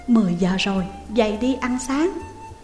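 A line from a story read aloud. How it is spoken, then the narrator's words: Soft reply. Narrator (Vietnamese): Trường Thành khẽ đáp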